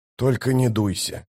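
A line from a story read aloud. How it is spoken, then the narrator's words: Mumbling. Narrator (Russian): пробормотал он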